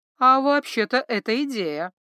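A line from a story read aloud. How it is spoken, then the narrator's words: Drawling. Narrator (Russian): протянул Калли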